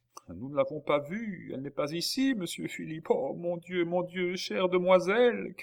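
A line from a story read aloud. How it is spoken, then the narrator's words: Crying out, sobbing. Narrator (French): cria Nicole, éclatant en sanglots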